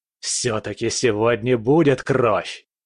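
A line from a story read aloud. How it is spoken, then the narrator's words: Growled with a smile. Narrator (Russian): с улыбкой прорычал хищник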